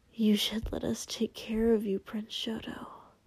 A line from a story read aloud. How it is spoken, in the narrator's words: he muttered